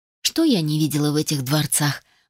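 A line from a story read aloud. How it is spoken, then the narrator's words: Sighing. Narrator (Russian): вздохнула я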